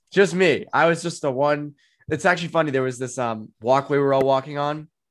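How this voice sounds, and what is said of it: Boston accent. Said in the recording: “No Boston accents. ... Just you, apparently.”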